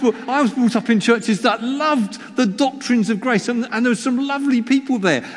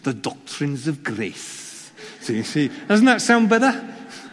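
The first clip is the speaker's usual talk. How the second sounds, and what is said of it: Put-on Welsh accent. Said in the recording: “It sounds even better in a Welsh accent, actually.”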